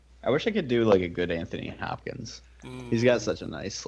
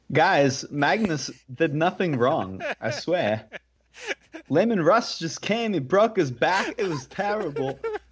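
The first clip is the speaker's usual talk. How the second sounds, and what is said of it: Christopher Walken impression. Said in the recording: “your Christopher Walken impression ... I know you do a good one ... One of ... wonderful impressions.”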